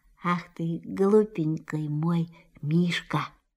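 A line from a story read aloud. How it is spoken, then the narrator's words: Tender whisper. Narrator (Russian): Кристофер Робин ласково прошептал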